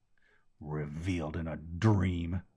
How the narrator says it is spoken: the old rebel snorted

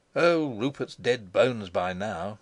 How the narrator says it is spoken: he chuckled

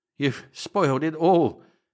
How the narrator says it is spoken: panted Cabor

